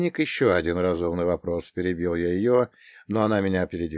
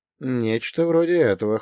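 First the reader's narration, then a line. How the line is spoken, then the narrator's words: Snorting. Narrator (Russian): хмыкнул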